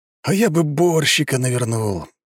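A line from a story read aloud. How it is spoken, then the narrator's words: Sighing. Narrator (Russian): вздохнул Коля Коромыслов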